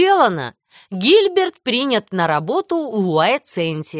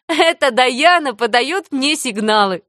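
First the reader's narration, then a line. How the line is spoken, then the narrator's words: Laughing. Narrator (Russian): засмеялась Энни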